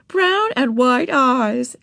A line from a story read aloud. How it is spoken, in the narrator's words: exclaimed the friend